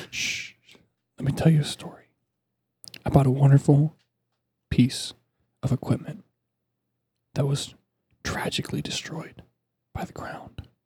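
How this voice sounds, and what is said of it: Whispering. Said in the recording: “I'm whispering in the mic”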